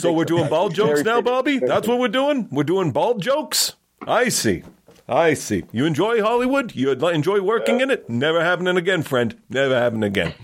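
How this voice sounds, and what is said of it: Imitates another person's voice. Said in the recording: “the best or worst Larry David impression I've ever done in my life ... It was pretty good”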